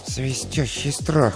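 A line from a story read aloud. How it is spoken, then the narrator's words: Muttering. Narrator (Russian): пробормотал он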